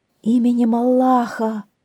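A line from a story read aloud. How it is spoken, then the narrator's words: Pleading. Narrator (Russian): взмолился визирь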